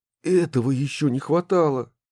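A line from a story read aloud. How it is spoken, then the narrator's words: Exclaimed. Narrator (Russian): воскликнул Мощин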